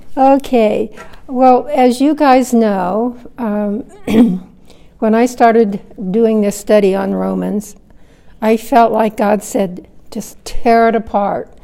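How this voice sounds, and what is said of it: Hoarse, froggy voice. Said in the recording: “excuse my voice, I'm a little froggy this morning”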